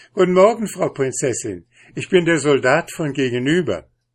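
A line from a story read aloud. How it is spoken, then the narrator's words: Laughing, cheerful. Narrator (German): der Doktor lachte über das ganze Gesicht und sagte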